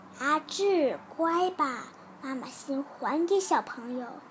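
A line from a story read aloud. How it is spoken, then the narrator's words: Gentle. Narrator (Chinese): 老师都更温柔的说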